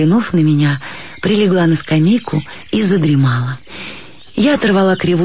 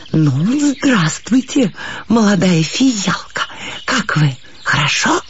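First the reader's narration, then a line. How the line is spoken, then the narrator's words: Whisper. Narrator (Russian): сказал шепотом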